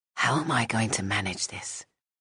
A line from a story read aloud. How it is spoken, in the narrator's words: She whispered